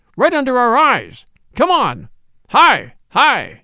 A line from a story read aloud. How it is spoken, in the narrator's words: yelled Jones